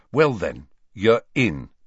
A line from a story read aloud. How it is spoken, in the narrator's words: said Harry